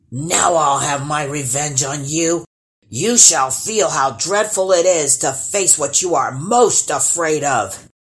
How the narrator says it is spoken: snarled

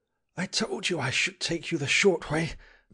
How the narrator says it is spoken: panted the Squire

